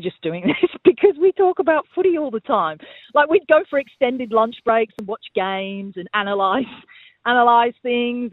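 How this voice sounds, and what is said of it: English accent. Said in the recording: “you still have that lovely English accent”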